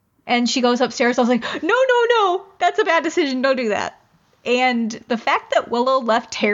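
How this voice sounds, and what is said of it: Usual voice. Nothing is said of it.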